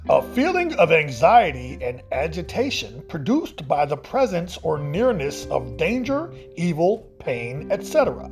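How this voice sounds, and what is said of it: Formal dictionary-reading voice. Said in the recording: “I had to read that in my dictionary voice”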